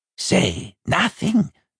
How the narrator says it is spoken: Binnipeg hissed

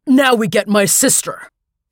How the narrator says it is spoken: Skip yelled

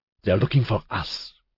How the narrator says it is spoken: he hissed

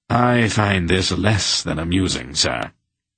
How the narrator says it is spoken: Captain Brendig said coldly

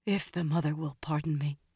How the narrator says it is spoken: she said in a faint voice

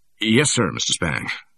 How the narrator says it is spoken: said the barber in a stunned voice

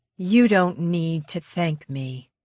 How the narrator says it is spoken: Vanessa said quietly

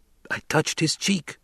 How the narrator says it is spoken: someone whispered

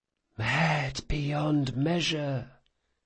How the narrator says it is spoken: whispered the circle

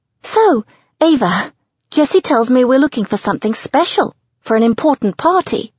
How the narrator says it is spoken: she says excitedly

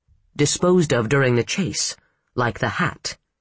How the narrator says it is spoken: Ellen said

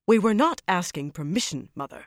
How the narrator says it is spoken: Suana said sharply

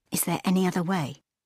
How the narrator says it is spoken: asked Leela

